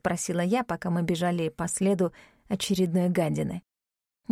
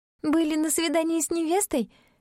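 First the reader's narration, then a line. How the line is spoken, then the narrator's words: Forced, tormented giggle. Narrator (Russian): вымученно хихикнула, раздираемая бесами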